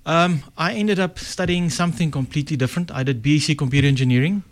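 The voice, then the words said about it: Afrikaans South African accent. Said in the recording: “I picked up from your accent, you're of Afrikaans origin.”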